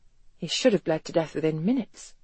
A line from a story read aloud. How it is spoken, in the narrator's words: she murmured